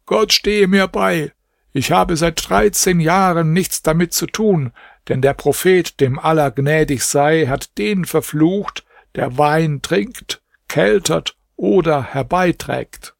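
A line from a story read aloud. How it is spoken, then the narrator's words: Called out. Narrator (German): Da rief Ibrahim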